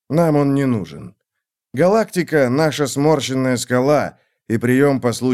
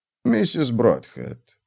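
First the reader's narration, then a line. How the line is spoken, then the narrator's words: Gentle. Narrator (Russian): мягко сказал он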